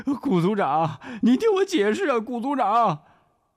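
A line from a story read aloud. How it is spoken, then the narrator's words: Crying out, sobbing. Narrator (Chinese): 抓着铁门哭喊着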